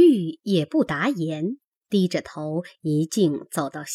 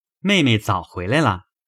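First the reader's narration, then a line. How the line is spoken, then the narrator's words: Laughing. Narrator (Chinese): 宝玉笑说道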